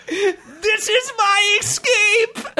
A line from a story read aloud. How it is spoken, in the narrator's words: The goblin turned his head and yelled